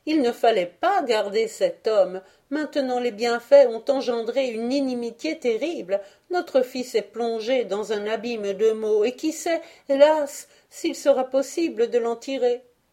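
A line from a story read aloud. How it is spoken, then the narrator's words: Woman exclaiming. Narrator (French): s'écrie-t-elle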